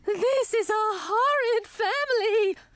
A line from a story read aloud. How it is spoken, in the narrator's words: she said, her voice turning as shrill as my aunt's and grandmother's